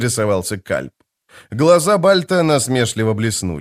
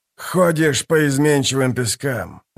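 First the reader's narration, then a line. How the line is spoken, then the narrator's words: Sigh. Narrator (Russian): вздохнул Бальд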